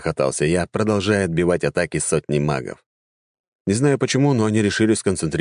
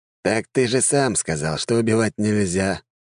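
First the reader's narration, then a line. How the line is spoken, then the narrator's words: Sad sigh. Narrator (Russian): грустно вздохнул некромант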